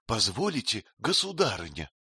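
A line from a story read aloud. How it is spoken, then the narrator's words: Whispered question. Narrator (Russian): шепотом спросила женщина из пустыни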